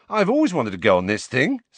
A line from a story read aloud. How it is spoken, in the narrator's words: said Ron happily